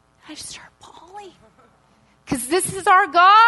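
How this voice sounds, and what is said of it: Usual voice. Nothing is said of it.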